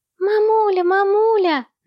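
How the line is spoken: Insistent squeaky children's voices. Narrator (Russian): настойчиво пищали близнецы

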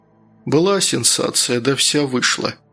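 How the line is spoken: Sighing. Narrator (Russian): вздохнул Луканов

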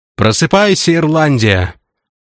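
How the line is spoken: Soldiers shouting. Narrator (Russian): кричали солдаты между песнями

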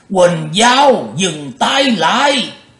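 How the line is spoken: Startled old man yelling. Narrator (Vietnamese): lão quái giật mình hét lên

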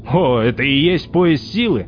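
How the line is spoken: Sarcastic question. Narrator (Russian): ехидно поинтересовался Лангер

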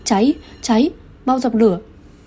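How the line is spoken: Frightened shouting. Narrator (Vietnamese): sợ hãi hét lên

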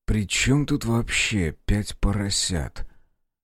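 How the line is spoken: Exhaled weary words. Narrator (Russian): Белый выдохнул

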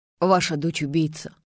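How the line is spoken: Cold retort. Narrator (Russian): холодно парировал Полуянов

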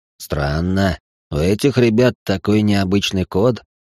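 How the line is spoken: Surprised snort. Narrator (Russian): Зевс удивленно хмыкнул

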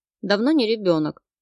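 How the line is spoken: Snapped. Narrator (Russian): Огрызнулась я

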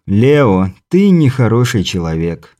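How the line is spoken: Weary sigh. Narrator (Russian): вздохнул Альберт Брандт, различив прозвучавшую в моих словах издевку

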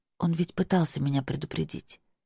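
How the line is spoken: Mumbled. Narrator (Russian): пробормотала я

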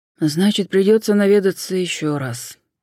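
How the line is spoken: Sympathetic sigh. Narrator (Russian): с сочувствием вздохнул Суарес

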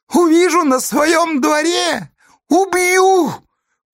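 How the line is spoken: Shouted after someone. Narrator (Russian): Крикнул Сесолятин Федьке вдогонку

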